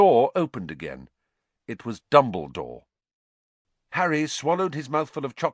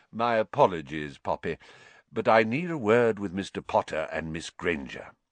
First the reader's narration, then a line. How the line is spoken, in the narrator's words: said Dumbledore calmly